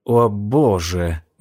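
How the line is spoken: Breathed out. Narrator (Russian): выдохнула она

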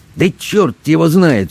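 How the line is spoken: Angry, curt doctor. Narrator (Russian): сердито бросил доктор

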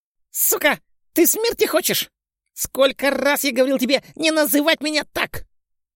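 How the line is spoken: Squeaky roar, young man. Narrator (Russian): Взревел писклявым голосом невысокий паренек

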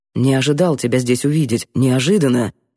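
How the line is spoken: Quiet, discreet. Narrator (Russian): говорил Мамлеев тихо, не привлекая внимания

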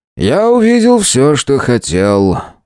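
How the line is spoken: Weary disappointed sigh. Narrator (Russian): устало и несколько разочарованно вздохнул профессор

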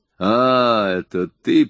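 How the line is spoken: Growled. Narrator (Russian): прорычал Джефф

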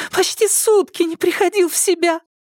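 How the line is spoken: Sobbing. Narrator (Russian): Максим, всхлипывая

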